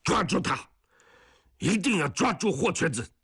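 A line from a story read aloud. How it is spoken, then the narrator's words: Repeated furious roar over radio. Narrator (Chinese): 松刚在电台里一遍一遍地怒吼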